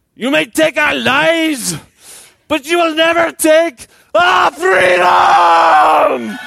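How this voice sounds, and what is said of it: Put-on Scottish accent, rallying cry. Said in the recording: “Should I do it with a Scottish accent?”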